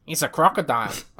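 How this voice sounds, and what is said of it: Bad put-on Australian accent. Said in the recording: “That's a bad Australian accent.”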